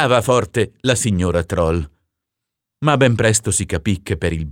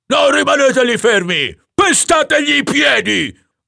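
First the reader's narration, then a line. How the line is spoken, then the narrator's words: Yelling at top of voice. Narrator (Italian): urlava il signor Troll a squarciagola ai suoi difensori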